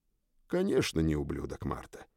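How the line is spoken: Quiet. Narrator (Russian): тихо сказал я девушке

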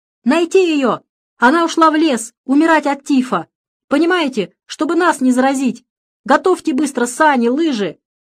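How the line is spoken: Shouted. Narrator (Russian): отец Александр закричал

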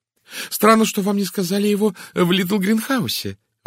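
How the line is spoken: Exclaimed. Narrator (Russian): воскликнула Изабель

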